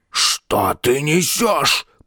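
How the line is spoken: Rasping. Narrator (Russian): прохрипел

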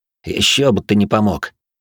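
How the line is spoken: Through gritted teeth. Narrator (Russian): процедил сквозь зубы обычно добродушный парень

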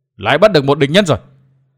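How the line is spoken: Sudden cry. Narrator (Vietnamese): bỗng nghe có người kêu lên

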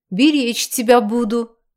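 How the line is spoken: Deep bass voice. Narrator (Russian): басил

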